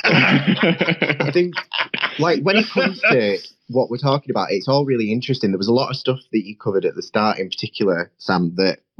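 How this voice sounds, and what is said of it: Northern English Leeds accent. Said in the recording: “As you can probably tell from my accent, I'd love it if Parliament moved to Leeds”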